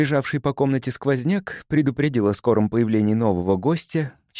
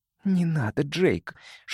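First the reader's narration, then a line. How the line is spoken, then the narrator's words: Whispered in ear. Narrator (Russian): шепнула Ронда мне на ухо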